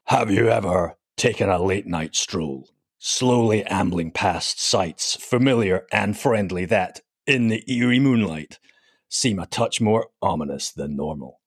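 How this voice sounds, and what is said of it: Dramatic movie trailer narrator voice. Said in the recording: “I'm going to read this bio out in some kind of sort of movie trailer voice”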